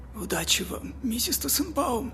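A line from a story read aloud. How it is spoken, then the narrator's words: Whisper. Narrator (Russian): прошептал магазинщик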